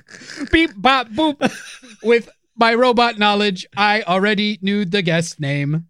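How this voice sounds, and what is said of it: Robot voice. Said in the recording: “the robot voice”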